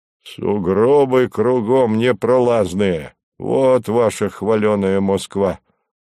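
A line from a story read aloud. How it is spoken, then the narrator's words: Grumbling. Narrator (Russian): ворчал Горький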